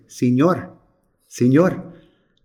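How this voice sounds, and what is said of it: Put-on Spanish accent. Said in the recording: “excuse my accent, but here it comes”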